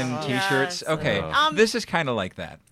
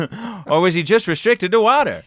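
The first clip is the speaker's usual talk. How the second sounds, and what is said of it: Jimmy Fallon imitating Jerry Seinfeld. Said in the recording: “that sounded exactly like Jimmy Fallon acting like Jerry Seinfeld ... That was a great Jimmy Fallon impression.”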